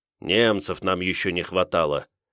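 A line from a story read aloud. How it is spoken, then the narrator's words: Wary grumble. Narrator (Russian): опасливо буркнул Овруч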